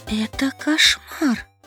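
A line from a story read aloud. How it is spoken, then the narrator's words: Whispered. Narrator (Russian): прошептала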